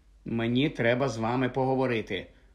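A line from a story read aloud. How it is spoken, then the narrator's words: Muttering. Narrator (Ukrainian): пробурмотів Гаррі Ронові й Герміоні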